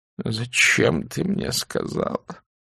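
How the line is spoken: Miserable, very weak voice. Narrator (Russian): несчастным, очень слабым голосом произнес он

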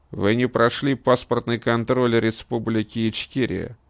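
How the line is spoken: Official tone. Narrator (Russian): официальным тоном сказал Волк

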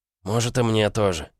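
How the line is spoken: Sighing. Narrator (Russian): вздохнул он

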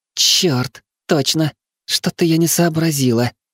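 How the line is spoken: Relieved exhale, young woman. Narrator (Russian): облегченно выдохнула девушка

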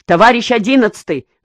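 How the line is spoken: Shouted. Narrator (Russian): закричал он

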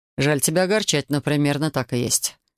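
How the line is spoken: Grim. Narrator (Russian): мрачно подтвердил он

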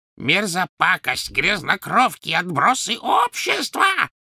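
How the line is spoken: Shrieking after them. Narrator (Russian): завизжала она им вслед

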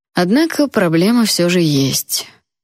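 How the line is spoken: Gloomy king's declaration. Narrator (Russian): хмуро заявил король

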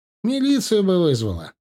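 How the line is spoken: Laughing. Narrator (Russian): рассмеялся Сачан

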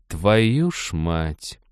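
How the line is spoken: Fox hissing through teeth. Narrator (Russian): процедила лиса сквозь клычки

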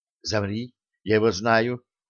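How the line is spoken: Whispered into ear. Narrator (Russian): Она наклонилась к уху Артема и прошептала

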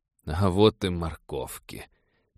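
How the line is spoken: Gloomy. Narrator (Russian): мрачно сказал Роджер

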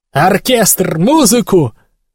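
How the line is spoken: Frantic shouting. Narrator (Russian): кричал Агасец, едва сознавая, что делает

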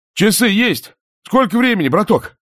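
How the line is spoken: Shout. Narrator (Russian): крикнул Романов

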